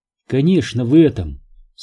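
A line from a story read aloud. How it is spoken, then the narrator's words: Calm, then sighing. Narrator (Russian): спокойно сказала она и вздохнула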